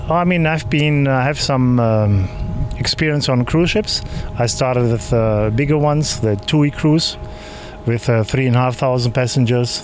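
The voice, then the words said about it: German accent in English. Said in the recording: “the German accent ... I'm trying to hide it, but obviously it's impossible”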